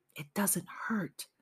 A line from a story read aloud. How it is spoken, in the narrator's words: My father whispered in my ear